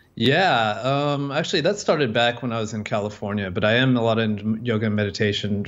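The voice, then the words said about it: American English accent. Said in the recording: “I'm, I'm, American, if you can't tell from the accent”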